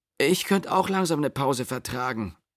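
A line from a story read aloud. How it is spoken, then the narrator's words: Groaning. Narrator (German): stöhnte Eva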